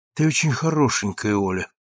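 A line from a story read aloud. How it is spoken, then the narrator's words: Sigh. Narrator (Russian): вздохнул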